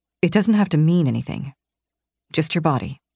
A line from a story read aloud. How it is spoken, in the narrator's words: he murmured